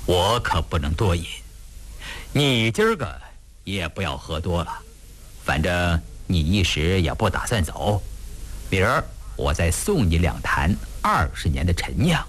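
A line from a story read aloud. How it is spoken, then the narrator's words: Hurried, smiling. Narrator (Chinese): 胤禛……忙笑着说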